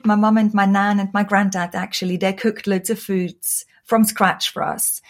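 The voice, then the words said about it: Austrian accent in English. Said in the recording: “you might hear from my accent. I was born and raised in Austria.”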